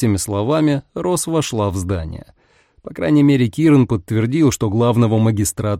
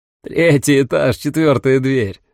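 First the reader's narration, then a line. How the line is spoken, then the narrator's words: Laughing. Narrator (Russian): рассмеялся Киран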